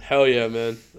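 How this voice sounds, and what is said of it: Deliberately deep, low voice. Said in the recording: “That's my deep voice.”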